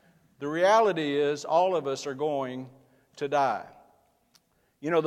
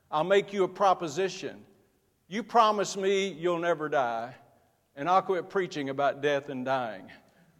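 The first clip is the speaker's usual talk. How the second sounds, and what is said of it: Imitated strong Russian accent. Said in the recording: “strong Russian accent”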